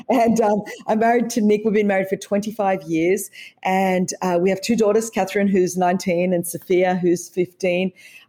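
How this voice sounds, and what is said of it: Australian accent. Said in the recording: “as you could tell from the accent, I was raised in Australia... this is how the Queen wishes that she could speak English”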